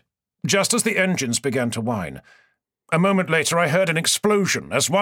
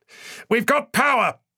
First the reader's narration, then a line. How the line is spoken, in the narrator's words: I shouted back